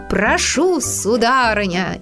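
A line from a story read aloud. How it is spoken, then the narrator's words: Shouting. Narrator (Russian): крикнул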